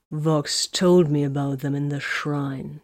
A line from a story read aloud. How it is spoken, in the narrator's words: he growled